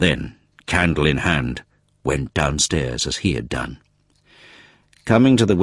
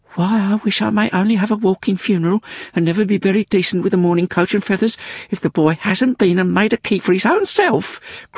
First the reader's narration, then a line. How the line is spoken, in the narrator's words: cried Miggs